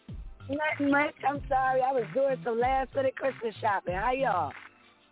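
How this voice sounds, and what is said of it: East Coast American accent. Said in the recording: “I hear that East Coast accent”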